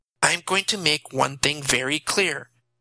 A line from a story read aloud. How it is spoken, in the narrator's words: she said stiffly